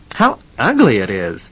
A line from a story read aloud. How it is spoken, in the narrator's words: exclaimed one woman